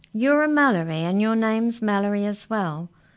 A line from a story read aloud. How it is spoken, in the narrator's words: laughed Molly